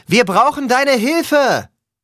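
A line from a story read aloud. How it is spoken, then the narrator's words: Louder call. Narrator (German): rief lauter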